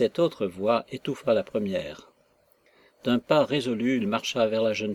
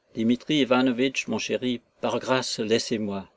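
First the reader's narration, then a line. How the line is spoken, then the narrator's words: Pleading voice. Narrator (French): dit-elle d'une voix suppliante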